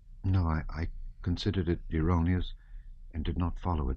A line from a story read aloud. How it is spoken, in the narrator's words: said Pierre, so softly that the Rhetor did not hear him